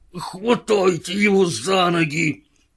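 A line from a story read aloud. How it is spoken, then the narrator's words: Hissed through teeth. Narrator (Russian): прошипел сквозь зубы Джефферс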